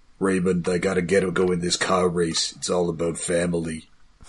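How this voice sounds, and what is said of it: Imitates another person's voice. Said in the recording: “my Vin Diesel impression is just a bad Brad Garrett”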